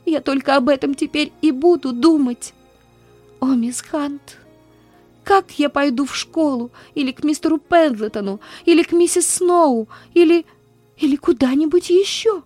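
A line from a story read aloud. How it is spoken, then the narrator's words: Gasping desperate sobbing. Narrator (Russian): с трудом хватала ртом воздух и отчаянно рыдала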